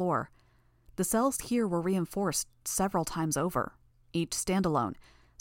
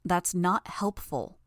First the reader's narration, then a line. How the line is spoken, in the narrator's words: I said